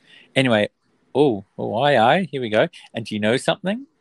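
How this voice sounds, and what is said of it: Usual voice. Nothing is said of it.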